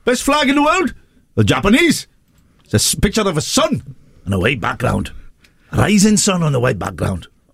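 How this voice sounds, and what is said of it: Welsh accent. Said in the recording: “I'll do the Welsh accent again”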